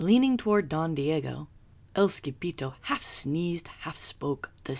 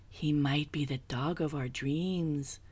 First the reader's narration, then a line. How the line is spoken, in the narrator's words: whispered Rosalita